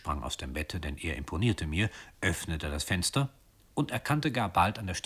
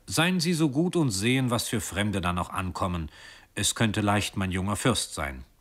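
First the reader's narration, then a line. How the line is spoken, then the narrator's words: Secretary calling out. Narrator (German): rief der Sekretär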